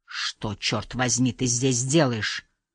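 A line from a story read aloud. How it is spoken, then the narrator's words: Hiss. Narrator (Russian): прошипел Харри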